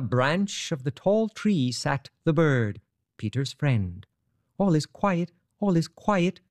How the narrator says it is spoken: chirped the bird merrily

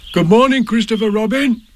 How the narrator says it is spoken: he called out

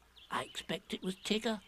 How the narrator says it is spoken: said Piglet nervously

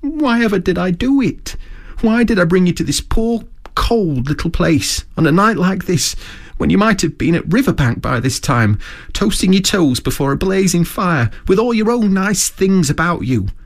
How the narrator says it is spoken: he cried dismally

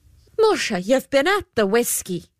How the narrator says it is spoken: exclaimed the good lady

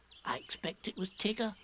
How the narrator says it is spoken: said Piglet nervously

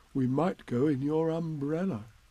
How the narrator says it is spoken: said Pooh

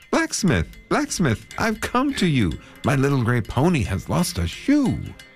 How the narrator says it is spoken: he called out to him

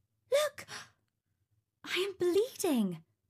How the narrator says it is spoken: she exclaimed

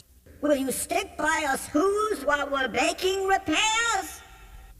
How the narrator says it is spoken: pleaded that voice of the mayor's

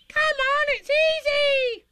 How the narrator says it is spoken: squeaked Roo

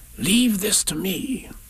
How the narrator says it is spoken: Rabbit whispered

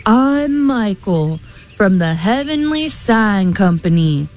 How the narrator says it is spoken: thundered the man

